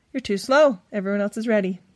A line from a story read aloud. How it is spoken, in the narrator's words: Stephanie replied